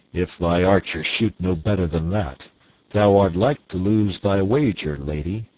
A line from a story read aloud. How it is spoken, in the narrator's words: Quoth the king grimly